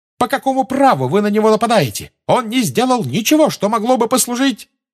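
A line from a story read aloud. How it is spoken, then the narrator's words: Shrieking in unison. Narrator (Russian): Гермиона, Парвати и Лаванда дружно завизжали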